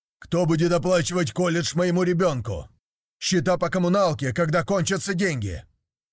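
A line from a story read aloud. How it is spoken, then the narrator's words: Barked from across hall. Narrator (Russian): гаркнул с другого конца зала Рэнди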